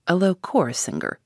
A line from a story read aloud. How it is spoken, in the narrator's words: he mutters to himself